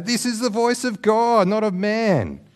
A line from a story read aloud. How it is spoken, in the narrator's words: They shouted